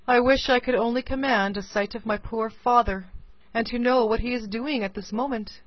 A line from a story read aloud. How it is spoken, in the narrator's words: said she, sighing